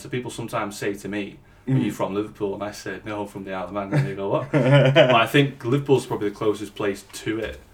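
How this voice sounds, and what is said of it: Manx accent, Scouse-like. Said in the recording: “apparently, it's a cross between Scouse and Viking... more like a Scouse farmery accent”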